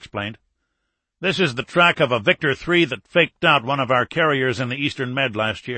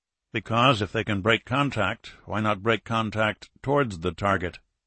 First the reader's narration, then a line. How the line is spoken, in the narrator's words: Morris asked quietly